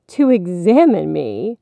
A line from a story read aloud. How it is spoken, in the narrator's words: the beast laughed rudely